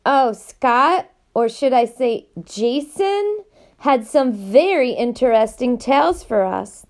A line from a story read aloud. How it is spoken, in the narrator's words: the man said cheerfully